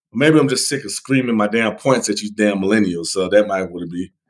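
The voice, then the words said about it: Hoarse, strained voice. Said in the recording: “it sounded a little hoarse, man ... I'm losing my voice”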